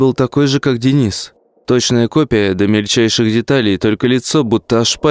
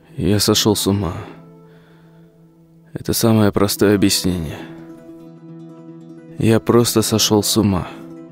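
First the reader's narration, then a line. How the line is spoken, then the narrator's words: Muttering under breath. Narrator (Russian): бормотал себе под нос Серега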